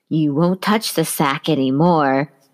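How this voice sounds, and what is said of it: Attempted creepy voice. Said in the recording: “That was my creepy voice. Didn't work.”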